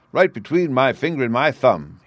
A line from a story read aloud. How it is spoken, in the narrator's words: he cried